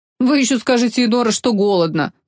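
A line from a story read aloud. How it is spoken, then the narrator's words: Grumbled. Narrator (Russian): проворчал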